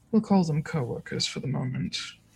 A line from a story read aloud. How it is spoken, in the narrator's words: Alistair sighs and says